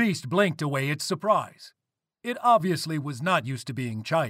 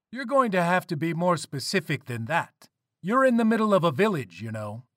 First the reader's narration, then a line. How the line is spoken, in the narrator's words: Changing Woman calmly replied